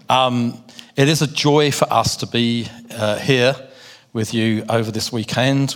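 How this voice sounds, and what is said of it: London English accent. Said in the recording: “my accent, because I do come from London in the UK ... he sounds very much like me”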